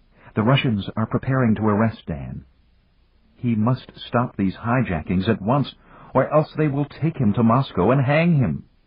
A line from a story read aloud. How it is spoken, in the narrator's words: Lucita said urgently